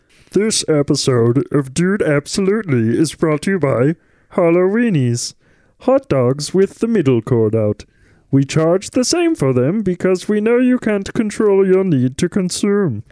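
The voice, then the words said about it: Imitated character voice. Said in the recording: “I'm doing a different voice ... I was trying to be Marvin ... I was just hoping there wasn't too much Ray in there”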